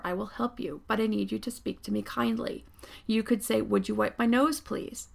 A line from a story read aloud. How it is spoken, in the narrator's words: calmly told her